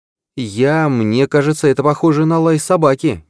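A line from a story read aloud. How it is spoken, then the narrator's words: Uncertain. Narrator (Russian): неуверенно произнес Зейн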